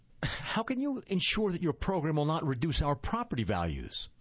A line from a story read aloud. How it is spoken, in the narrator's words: another neighbor asked